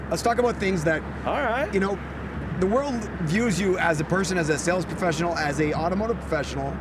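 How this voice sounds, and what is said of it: Loud strip club announcer voice. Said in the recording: “I'll talk loud ... I haven't slept much ... It brings out my strip club announcer voice a little more”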